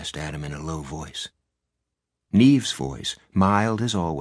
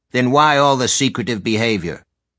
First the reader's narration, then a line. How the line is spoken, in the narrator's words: Calla snapped